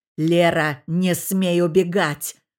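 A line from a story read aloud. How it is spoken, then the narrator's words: Man growling. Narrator (Russian): прорычал мужчина из снов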